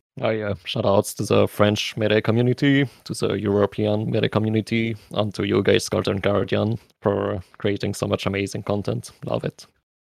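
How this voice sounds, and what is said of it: Speaks with an accent. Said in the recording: “his accent”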